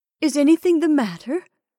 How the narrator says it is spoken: She asked breathlessly

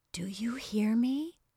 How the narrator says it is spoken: she whispered

